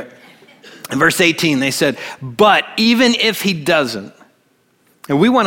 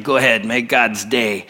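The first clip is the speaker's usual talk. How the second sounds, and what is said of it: Bad Clint Eastwood impression. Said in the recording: “bad impersonation of Clint”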